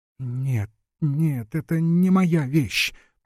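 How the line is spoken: Moaning, just coming to. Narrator (Russian): простонала, приходя в чувство, Глафира

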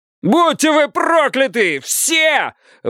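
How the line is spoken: Shouted curse. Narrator (Russian): выкрикнул заключенный

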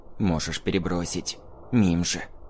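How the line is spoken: Whisper. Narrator (Russian): шепнул он

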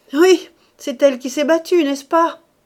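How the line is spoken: Sneering. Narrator (French): reprit Rose en ricanant

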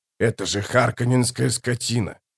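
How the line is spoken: Hoarse croak. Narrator (Russian): прохрипел Гурни

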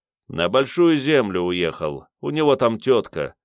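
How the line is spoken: Sighing. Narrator (Russian): вздохнул бармен

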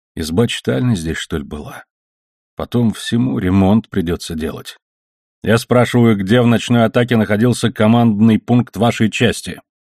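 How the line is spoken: Plain. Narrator (Russian): сказал офицер

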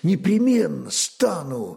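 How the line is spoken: Exclaiming. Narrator (Russian): воскликнул он

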